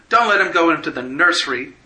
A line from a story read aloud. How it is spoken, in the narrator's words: she shouted